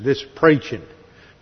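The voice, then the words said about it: Put-on Southern Texas accent. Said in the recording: “good Southern Texas accent”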